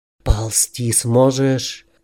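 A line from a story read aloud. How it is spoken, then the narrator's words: Whispered. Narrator (Russian): прошептал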